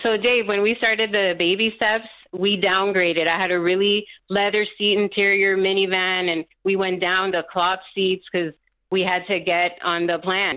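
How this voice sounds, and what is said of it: Colombian-accented English. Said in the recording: “I hear an accent. What is your heritage? ... I'm Colombia.”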